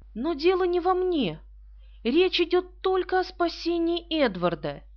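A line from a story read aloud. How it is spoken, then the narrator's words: Exclaiming. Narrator (Russian): Она воскликнула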